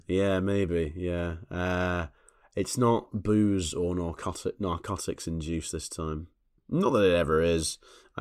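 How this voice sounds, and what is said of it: Extra calming podcast-style voice. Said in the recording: “feeling quite rough ... particularly calming podcast voice this time around. Even more of a podcast voice”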